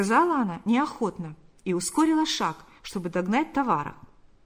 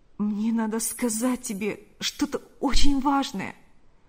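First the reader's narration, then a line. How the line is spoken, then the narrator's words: Pleading voice. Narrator (Russian): произнес он умоляющим голосом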